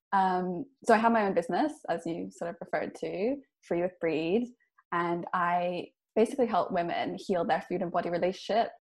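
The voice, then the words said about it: Mixed, hard-to-place accent. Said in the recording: “you can probably tell my accent is a bit of a mess... I grew up all over the place”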